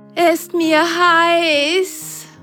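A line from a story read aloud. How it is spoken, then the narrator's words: Panting. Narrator (German): keuchte die eine Socke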